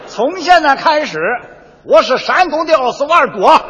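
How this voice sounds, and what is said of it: Shandong dialect voice. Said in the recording (Chinese): “用山东话配奥斯瓦尔多”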